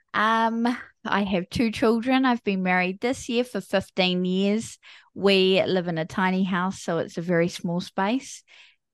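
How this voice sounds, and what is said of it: New Zealand accent. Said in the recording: “I have a funny accent. So I'm not from the US. I am from a small country called New Zealand. So I'm a Kiwi.”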